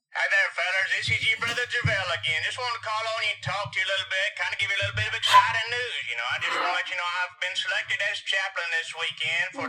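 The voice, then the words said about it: Imitates another person's voice. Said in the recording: “you did a very accurate impression.”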